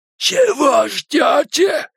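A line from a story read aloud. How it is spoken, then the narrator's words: Strained forced words. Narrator (Russian): удалось выдавить из себя Генри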